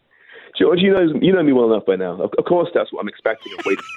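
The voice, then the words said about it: English accent. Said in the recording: “immediately your accent. You're an Englishman.”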